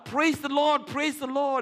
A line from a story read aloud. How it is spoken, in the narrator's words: he shouted out